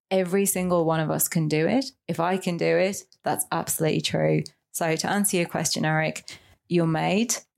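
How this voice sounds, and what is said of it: British accent. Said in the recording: “You can definitely hear the UK accent as well.”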